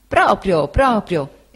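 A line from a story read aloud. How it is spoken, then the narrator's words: Exclaiming. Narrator (Italian): esclamò Cam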